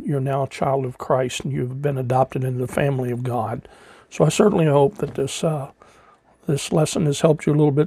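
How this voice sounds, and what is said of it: Slightly raspy voice. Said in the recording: “Sorry for my voice being a little bit raspy,”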